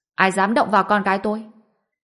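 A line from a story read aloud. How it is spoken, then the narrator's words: Cold shout. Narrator (Vietnamese): Mộc Quy Phàm lạnh lùng quát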